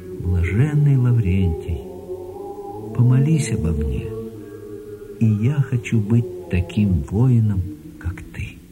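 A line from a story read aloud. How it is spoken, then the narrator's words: Whisper. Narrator (Russian): Миша, сам не зная почему, прошептал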